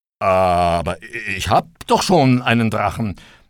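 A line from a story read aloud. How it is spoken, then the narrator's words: Stammering. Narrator (German): konnte der Arme noch stammeln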